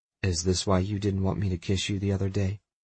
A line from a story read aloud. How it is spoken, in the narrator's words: I murmur softly